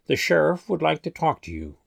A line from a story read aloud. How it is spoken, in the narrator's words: Deputy Harris sighed, then said to me